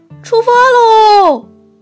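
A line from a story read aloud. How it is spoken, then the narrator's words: Happy shout. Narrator (Chinese): 小熊高兴地喊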